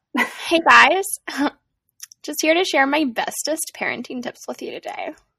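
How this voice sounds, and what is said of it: Valley Girl voice. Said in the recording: “my little Valley Girl voice”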